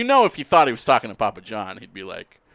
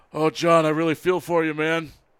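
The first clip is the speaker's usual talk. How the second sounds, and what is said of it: Imitates another person's voice. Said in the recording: “good Peyton Manning impression.”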